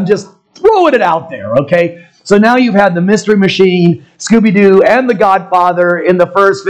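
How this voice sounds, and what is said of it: Usual voice. Nothing is said of it.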